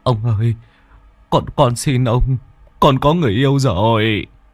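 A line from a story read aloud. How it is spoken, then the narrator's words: Whimpering in sleep. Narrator (Vietnamese): Trong giấc mơ, bố mếu máo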